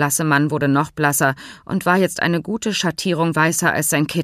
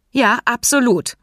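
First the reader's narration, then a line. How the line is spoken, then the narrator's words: Firm voice. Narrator (German): erwiderte Hans mit fester Stimme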